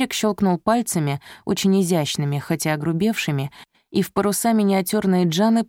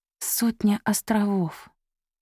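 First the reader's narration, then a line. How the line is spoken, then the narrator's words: Quiet repetition. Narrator (Russian): тихо повторила Софи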